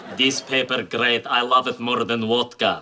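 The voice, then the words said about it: Put-on Russian accent. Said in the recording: “See, better with the accent.”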